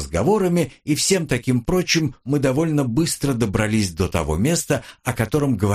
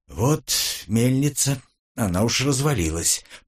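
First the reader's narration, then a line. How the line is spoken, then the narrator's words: Muttered. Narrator (Russian): пробормотал я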